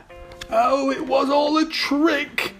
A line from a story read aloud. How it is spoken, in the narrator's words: cried